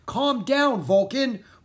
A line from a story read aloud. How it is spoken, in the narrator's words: Rory yelled